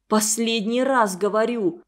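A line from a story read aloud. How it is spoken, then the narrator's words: Warning through gritted teeth. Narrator (Russian): сквозь зубы предупредила Тамара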